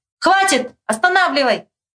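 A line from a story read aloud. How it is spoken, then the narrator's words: Shout. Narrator (Russian): крикнул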